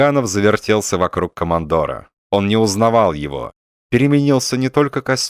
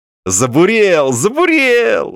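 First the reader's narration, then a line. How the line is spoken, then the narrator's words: Joyful cry. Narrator (Russian): радостно вскрикнул Балаганов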